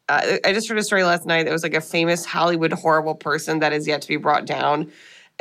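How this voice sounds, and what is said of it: Rough, just-woken-up sounding voice. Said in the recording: “apologize for my voice. I sound like I woke up from the grave immediately before recording”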